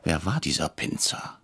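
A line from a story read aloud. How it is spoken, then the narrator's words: Whisper. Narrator (German): flüsterte ich Herrn Brecher zu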